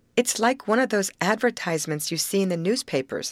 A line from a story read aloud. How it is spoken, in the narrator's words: said Grace with a little laugh